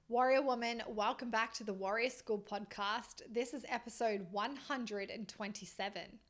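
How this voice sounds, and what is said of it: Strained, tired voice lacking energy. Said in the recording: “My voice is a little strained. It's a little tired. It feels like it's lost its like oomph, its tenacity.”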